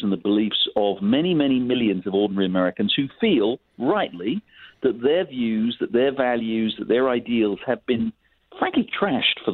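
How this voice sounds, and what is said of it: Foreign, non-American accent. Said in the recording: “you can tell from my accent, I'm an immigrant to this country”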